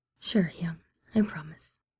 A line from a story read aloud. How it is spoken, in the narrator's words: he finds himself murmuring